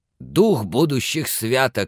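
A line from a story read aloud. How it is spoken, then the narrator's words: Exclaimed. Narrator (Russian): воскликнул Скрудж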